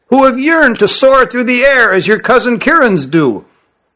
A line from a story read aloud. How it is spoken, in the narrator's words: said Issar to his compatriot in a shrill voice